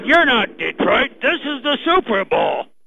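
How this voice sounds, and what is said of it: Imitates another person's voice. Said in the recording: “that was a great impression there, too. That was good. That was real good there”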